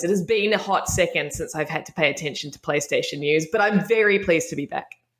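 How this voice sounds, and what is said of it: Speaks with a noticeable accent. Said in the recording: “my accent has come back stronger”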